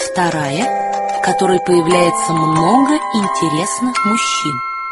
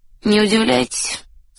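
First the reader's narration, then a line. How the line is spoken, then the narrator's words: Bored peasant voice. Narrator (Russian): скучным голосом промолвил странный крестьянин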